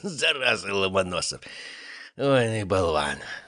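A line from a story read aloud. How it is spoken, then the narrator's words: Forced out with effort. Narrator (Russian): с трудом выдавил он из себя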